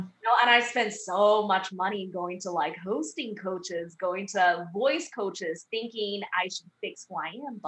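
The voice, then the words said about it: English with Chinese accent. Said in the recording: “we can hear a Chinese accent”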